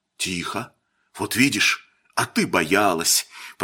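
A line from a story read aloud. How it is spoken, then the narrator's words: Pleased whisper. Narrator (Russian): прошептал он довольный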